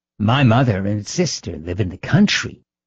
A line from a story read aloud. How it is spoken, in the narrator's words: Anna was telling him in a rather cozy undertone